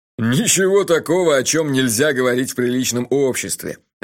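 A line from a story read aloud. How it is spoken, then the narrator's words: Laughing loudly. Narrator (Russian): расхохотался Джуффин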